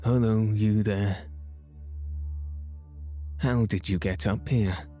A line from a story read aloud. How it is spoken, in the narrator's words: They could hardly speak, but Cyril managed to reply huskily